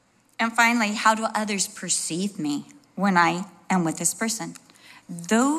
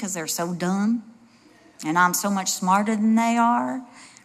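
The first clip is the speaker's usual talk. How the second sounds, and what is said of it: Put-on Southern accent. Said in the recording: “I always go to a Southern accent when I do things like that.”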